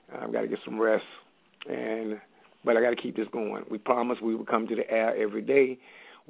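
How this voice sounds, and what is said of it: Slightly raspy voice. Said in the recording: “Excuse my voice, a little raspy”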